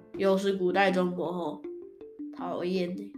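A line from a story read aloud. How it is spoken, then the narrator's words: Sighing. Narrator (Chinese): 叹了一口气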